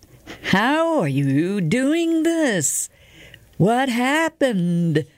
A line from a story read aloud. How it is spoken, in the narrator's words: shouted Colin